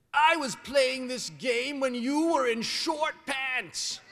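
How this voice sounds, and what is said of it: Grumpy old man voice. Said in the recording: “I said in my very best grumpy old man voice.”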